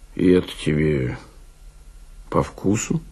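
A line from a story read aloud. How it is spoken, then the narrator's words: Indifferent voice. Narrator (Russian): Он произнес все тем же безразличным голосом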